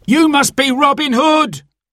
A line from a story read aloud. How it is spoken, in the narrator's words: cried the terrified man on the cart